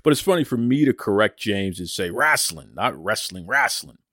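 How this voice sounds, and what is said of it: New England accent, rhotic. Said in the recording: “the Boston guy, with my, I'm not going to call it a Boston accent so much as a New England accent, because I actually pronounce my R's”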